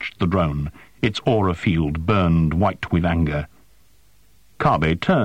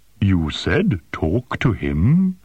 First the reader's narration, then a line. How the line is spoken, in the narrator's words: rumbled